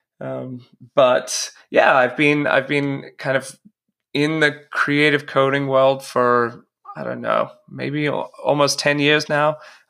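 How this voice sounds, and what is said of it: American accent, formerly Australian. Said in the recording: “my fantastic Australian accent has weirdly changed into a brutally stark American accent.”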